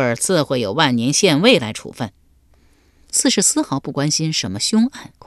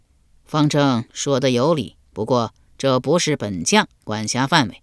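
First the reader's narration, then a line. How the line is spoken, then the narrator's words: Calm, indifferent. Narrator (Chinese): 郭蜀淡淡道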